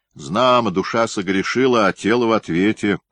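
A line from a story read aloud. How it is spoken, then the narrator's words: Loud, mocking. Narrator (Russian): громко с усмешкой в голос произнес кто-то в темноте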